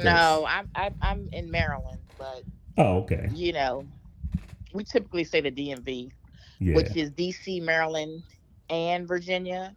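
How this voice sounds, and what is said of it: Regional accent. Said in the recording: “she has an accent”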